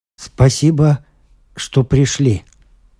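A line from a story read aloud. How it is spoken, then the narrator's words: Flat wooden voice. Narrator (Russian): сказал Брон деревянным голосом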